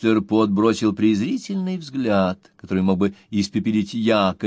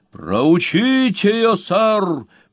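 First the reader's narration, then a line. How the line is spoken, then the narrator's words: Raised-voice shout. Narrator (Russian): повысив голос, крикнул Слерк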